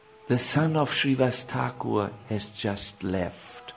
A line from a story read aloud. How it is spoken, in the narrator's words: one of the devotees who has heard about the departure of Shrivas Thakur's son comes to Gauranga Mahaprabhu and whispers in his ear